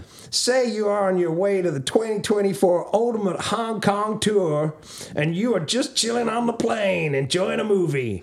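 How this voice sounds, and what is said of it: Bad put-on Southern American accent. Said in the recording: “What kind of Southern bullshit is this? ... What the f*** kind of accent is this? There's some Texas, there's some Georgia. ... All right, normal accent is fine. ... Awful.”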